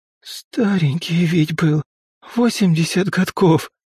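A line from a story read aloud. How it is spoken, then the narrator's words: Hoarse repetition. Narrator (Russian): В который раз повторяла тетя Тома осипшим голосом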